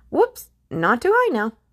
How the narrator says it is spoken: the ghost yelped

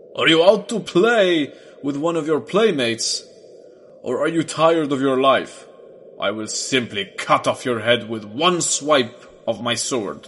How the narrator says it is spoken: he laughed loudly and roared

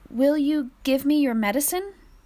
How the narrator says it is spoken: She asked this, but her voice was uncertain

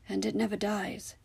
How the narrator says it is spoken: said, his voice was soft

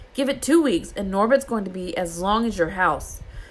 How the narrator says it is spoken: said Harry loudly

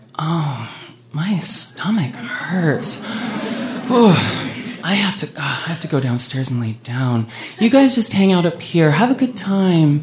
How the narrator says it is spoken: Heather groaned and was like

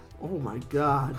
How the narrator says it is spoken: Ralphie with a scowl, like a sneer, he says

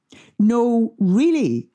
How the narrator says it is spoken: she said, as the laugh petered out

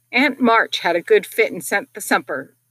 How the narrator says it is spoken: cried Joe with a sudden inspiration

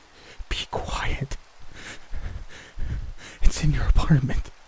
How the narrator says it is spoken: I could tell he was wild-eyed from the way he whispered

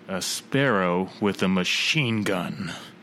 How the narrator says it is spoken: Robin's just so grimly says

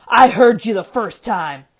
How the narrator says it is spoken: snapped Gaunt

